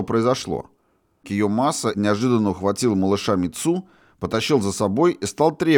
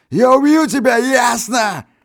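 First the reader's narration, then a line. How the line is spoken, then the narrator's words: Crazed yelling. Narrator (Russian): Орал он как безумный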